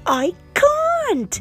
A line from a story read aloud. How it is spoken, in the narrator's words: shouted Annika